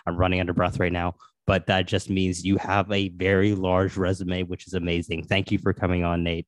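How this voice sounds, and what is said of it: Sportscaster-style radio voice. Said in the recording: “It's my radio voice when I try to pretend I'm a sportscaster.”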